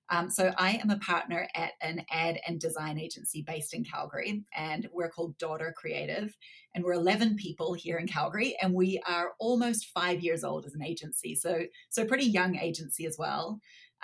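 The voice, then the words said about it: Slightly unusual New Zealand-tinged accent. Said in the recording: “I was born in Canada, but grew up in New Zealand, hence the slightly strange accent”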